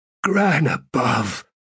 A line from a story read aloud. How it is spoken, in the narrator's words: added in a hoarse whisper